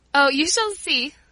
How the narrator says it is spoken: laughed Paula

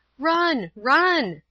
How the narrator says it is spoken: I cried

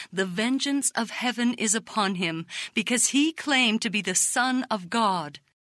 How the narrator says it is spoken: Many voices exclaimed

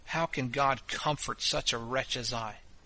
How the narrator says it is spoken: breaking out in the bitterness of my soul, I said to myself with a grievous sigh

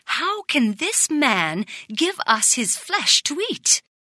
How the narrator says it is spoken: the rabbis exclaimed angrily

